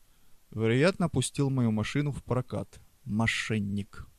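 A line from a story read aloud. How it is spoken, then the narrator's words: Grumbling. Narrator (Russian): проворчал Преста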